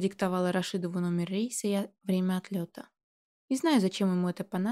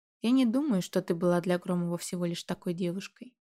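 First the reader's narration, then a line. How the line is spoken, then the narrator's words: Calm. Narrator (Russian): спокойно сказал Мир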